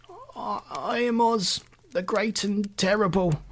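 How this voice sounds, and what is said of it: Trembling voice. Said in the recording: “in a trembling voice.”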